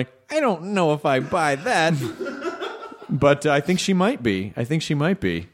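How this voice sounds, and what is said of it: Usual voice. Nothing is said of it.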